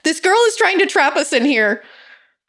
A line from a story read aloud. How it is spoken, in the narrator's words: yelled